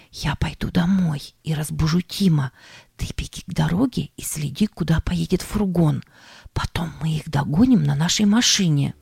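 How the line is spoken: Whisper. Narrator (Russian): Она шепнула

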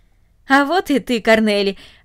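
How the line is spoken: Cheerful. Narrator (Russian): радостно сказал он

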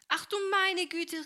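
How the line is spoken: Startled exclamation. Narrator (German): rief Helene, als sich das Wasser über ihr ergoss

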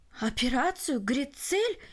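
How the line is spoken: Exclamation. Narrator (Russian): воскликнул Барелл

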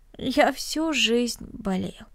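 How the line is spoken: Sad, smiling. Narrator (Russian): печально улыбнулся Денис

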